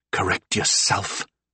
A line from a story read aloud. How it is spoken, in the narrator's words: I whispered